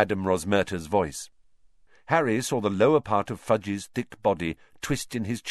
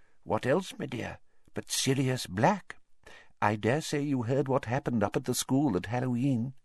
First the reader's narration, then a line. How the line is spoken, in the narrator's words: he said, in a quiet voice